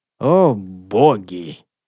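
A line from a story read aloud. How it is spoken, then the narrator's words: Mumbled. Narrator (Russian): промямлил Дестер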